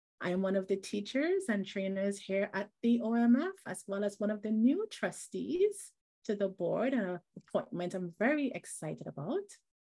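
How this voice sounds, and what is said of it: Trinidadian English accent. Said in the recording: “if you're trying to place the accent, I am joining today from Trinidad and Tobago, where I'm from and where I live”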